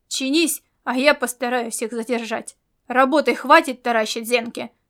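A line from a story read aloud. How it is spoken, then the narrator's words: Barked harshly. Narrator (Russian): рявкнул он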